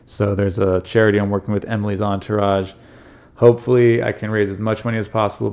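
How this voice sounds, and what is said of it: Hoarse, fading voice. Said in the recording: “I am losing my voice. I feel like I'm getting sick”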